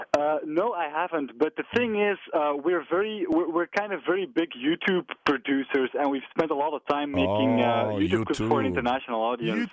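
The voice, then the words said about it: Nice accent, flawless English. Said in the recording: “you've got a very, very nice accent. Your English is flawless.”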